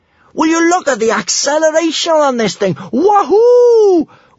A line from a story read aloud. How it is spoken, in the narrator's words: whooped Kamikaze above the roaring of the wind